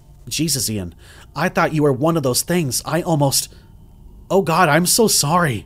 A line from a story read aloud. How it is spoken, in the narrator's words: I whispered